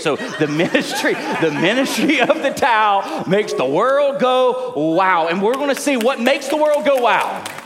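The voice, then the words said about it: Southern accent. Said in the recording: “your little Southern accent”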